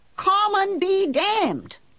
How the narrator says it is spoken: I yelled

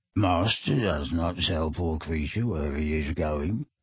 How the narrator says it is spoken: said the elf quietly

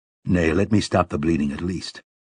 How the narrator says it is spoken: Roland murmured

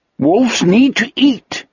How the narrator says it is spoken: he said, and his voice too was joyous

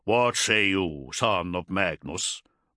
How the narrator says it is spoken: Bryngar growled

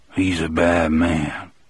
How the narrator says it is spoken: Coffee said, but in a lower voice this time, as if he was not quite sure of what he was saying or what it meant

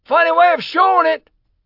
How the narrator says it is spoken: howled a voice from the crowd

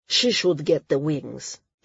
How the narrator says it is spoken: the Outer Islander grumbled

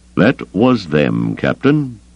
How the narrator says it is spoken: Thrawn said, his voice unreadable

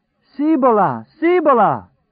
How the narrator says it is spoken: Trash cried rapturously

